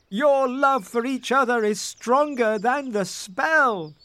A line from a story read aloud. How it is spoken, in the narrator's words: they cried